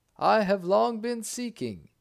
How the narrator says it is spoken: he exclaimed

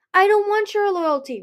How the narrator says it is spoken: Ruby shouted

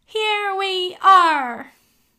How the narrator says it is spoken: the children cried out all together

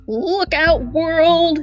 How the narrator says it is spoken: exclaimed the genie

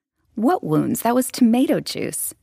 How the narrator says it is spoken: she laughed indignantly

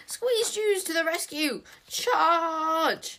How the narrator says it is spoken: he shrieked at the top of his voice

